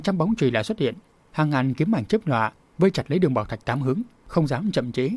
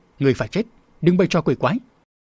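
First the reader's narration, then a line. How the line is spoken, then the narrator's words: Sharp shout. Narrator (Vietnamese): Nam Cung Thất đã quát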